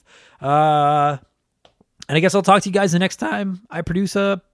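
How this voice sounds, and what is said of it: Voice cracks mid-sentence. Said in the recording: “my voice just cracked... without my voice doing this”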